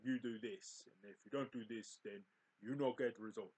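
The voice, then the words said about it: Poor attempt at Russian accent. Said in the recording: “that was a really rubbish accent ... I tried to be like a Russian then, but didn't really fucking work”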